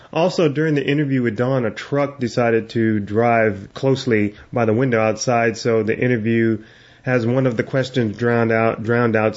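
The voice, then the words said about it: Nasal, congested voice. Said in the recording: “I have a cold... please excuse the nasally or Barbara Streisand kind of sound that's coming out of my mouth”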